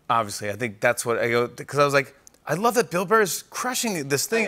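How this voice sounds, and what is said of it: Boston accent. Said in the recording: “why does he have a Boston accent?”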